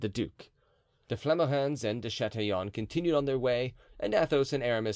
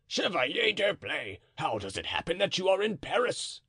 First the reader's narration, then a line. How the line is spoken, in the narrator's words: the man cried out